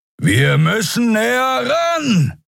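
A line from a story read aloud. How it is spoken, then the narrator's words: Shouting over howling wind. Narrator (German): rief Kero über den heulenden Fahrtwind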